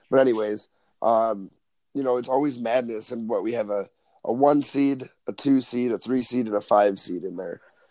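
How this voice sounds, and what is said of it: Strained, hoarse voice. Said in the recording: “excuse my voice ... I've been a little bit under the weather ... screaming as much as I did ... I definitely have a little bit of a strained voice”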